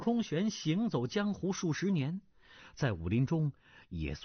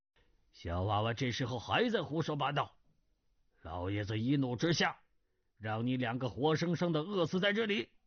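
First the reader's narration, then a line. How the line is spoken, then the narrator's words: Stern, harsh voice. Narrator (Chinese): 司空玄厉声道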